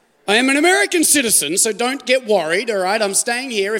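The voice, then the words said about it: Australian accent. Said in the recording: “My accent's still there. I'm still Australian”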